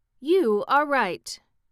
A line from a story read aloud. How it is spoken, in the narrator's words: she exclaimed